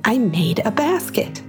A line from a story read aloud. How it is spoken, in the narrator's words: exclaimed Brittany